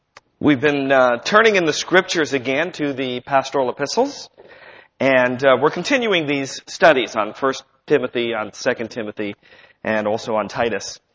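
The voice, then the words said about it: Rough voice from a cold. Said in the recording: “just getting over a pretty bad cold, and my voice is still pretty rough”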